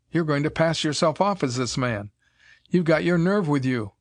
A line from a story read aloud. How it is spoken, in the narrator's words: exclaimed